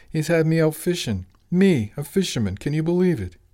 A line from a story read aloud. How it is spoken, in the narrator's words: Angelo chuckled